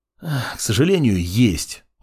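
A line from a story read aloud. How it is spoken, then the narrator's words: Sigh. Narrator (Russian): вздохнул Мак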